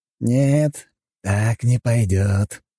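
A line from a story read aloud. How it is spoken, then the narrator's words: Hissing, uncle. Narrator (Russian): прошипел дядя Игнат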